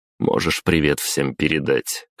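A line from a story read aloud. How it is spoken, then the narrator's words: Smirking grunt. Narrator (Russian): хмыкнул я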